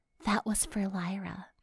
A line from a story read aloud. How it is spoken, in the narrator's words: whispered